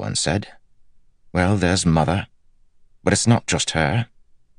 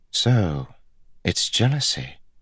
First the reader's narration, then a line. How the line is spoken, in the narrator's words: Elaine said softly